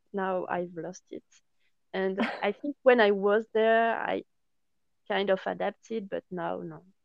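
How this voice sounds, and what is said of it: French accent in English. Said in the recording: “Now I have my French accent and it's good. ... my original accent.”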